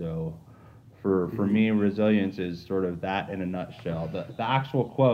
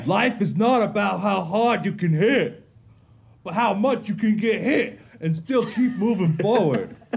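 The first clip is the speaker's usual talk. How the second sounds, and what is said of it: Sylvester Stallone as Rocky impression. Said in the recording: “my best Sylvester Stallone Rocky impersonation ... Wow, you did good ... Yeah, well, pretty good.”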